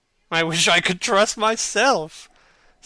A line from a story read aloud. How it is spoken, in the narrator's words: said Lord Henry, laughing